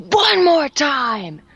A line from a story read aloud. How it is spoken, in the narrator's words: yell